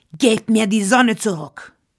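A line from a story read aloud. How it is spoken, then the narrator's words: Roaring polar bear. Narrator (German): brüllte der Eisbär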